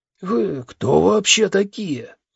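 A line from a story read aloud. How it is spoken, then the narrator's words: Indignant hoarse voice. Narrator (Russian): возмущенно спросил хриплый голос из пустоты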